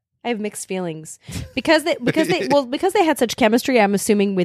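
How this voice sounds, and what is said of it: Usual voice. Nothing is said of it.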